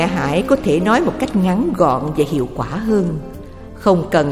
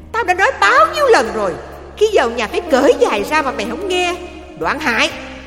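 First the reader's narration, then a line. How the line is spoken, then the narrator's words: Mother shouting. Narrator (Vietnamese): Bà mẹ la lên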